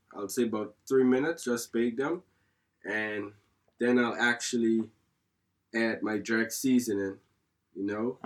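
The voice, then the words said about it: Unique mixed Caribbean-influenced accent. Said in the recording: “your accent there, it's not it's quite unique, isn't it? It's got a bit of a mixture of a few different countries”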